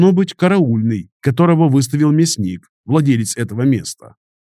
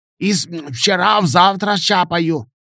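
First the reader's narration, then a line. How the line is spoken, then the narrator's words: Creaky toothless mumble. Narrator (Russian): старательно шамкая проскрипела Яна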